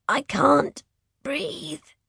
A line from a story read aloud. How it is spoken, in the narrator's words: she croaks